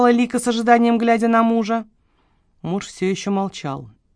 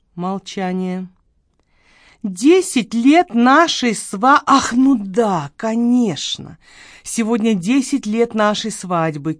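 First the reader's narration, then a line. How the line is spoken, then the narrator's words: Sour drawl. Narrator (Russian): кисло протянул Эрик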